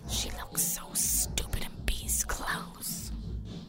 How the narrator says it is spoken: whispering

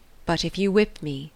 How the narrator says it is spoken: said he

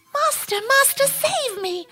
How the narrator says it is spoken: the harp cried out

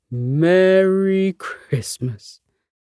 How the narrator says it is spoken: Santa chuckled contentedly

